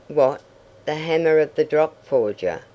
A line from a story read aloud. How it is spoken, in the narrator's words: cried Tom